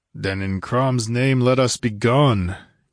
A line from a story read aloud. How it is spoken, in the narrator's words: grunted Conan, fidgeting with impatience